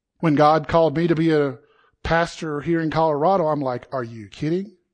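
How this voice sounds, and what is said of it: Southern US South Carolina accent. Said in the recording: “I talk funny. They'll make fun of my accent. ... this guy from South Carolina”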